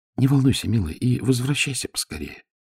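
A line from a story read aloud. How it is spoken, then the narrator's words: Whisper. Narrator (Russian): шепнула она мне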